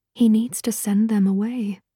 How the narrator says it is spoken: said softly

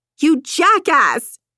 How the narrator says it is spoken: she shrieked

